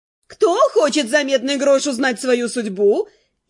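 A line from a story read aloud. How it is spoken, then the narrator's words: Cheerful brisk question. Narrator (Russian): весело и бодро вопросила она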